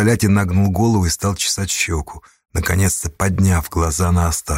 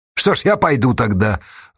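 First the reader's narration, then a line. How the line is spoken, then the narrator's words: Angry. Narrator (Russian): зло сказал Асташа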